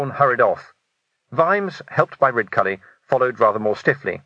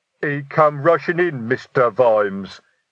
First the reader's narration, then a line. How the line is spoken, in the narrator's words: rumbled Detritus